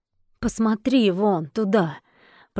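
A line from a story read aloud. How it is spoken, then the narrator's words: Weak, sickly voice. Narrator (Russian): продолжал рядовой тем же слабым болезненным голосом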